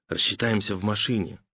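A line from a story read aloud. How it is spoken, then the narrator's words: Whispered. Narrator (Russian): шепотом заявил знаток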